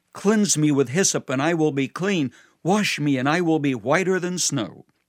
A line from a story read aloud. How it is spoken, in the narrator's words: David would plead